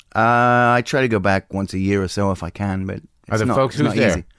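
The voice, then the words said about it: Australian accent. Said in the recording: “comes to us by way of Texas, and before that, by way of Australia. I'm sure you noticed the accent”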